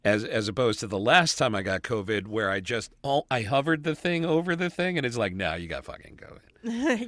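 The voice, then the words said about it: Rough, strained voice. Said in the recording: “my voice is still fucked up from it.”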